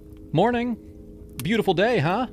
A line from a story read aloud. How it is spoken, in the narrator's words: I called out, trying to sound casual